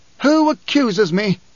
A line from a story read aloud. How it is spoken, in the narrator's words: Corba mustered a pitiful air of pomposity to plead